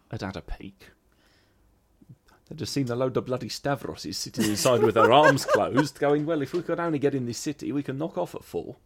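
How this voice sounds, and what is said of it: London Italian Cockney accent. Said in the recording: “that's not really a Greek accent. It's a kind of it's not even a London Greek. That's a London Italian... he's definitely an Italian Cockney... a nice voice to fall into”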